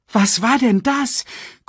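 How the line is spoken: Panting. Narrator (German): keuchte Nala

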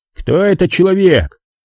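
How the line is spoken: Barking. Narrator (Russian): рявкнул

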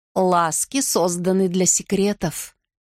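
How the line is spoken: Plain. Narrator (Russian): говорит старшая

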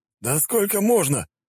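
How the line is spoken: Stunned exclamation. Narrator (Russian): ошеломленно воскликнул эльф

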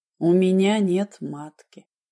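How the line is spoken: Dull, muffled female voice. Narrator (Russian): глухо сказала Даша

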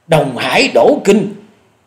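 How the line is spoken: Terrified cry. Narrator (Vietnamese): Hổ Điểu Thần Ma không dằn được khiếp hãi kêu lên

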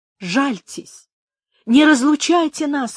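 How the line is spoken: Exclamation. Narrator (Russian): воскликнула она

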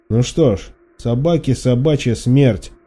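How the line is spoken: Angry smirking statement. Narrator (Russian): зло усмехнувшись, констатировал Никодим

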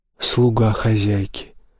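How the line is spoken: Whisper. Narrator (Russian): прошептала девушка

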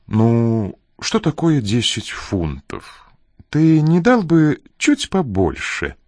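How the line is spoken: Ingratiating request. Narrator (Russian): вкрадчиво попросила она

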